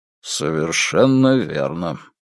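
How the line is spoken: Grim agreement. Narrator (Russian): мрачно согласился капитан

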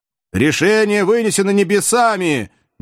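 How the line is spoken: Fearless shout from above. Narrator (Russian): ни капли не испугавшись, прокричал с высоты бравый подъясаул

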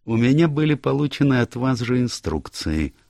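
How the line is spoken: Soothing tone. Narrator (Russian): успокаивающим тоном сказал Пуаро

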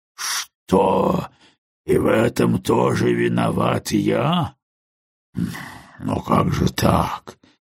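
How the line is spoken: Low indistinct mutter. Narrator (Russian): понизив голос до невнятного бормотания

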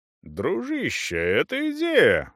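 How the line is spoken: Exclamation. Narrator (Russian): воскликнул пан Валента

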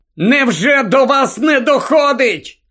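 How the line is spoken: Shouting. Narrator (Ukrainian): крикнув Гаррі

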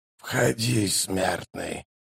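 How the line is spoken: Muffled coughing, hoarse creak. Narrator (Russian): Изнутри послышался надсадный кашель, а затем хриплый голос проскрипел

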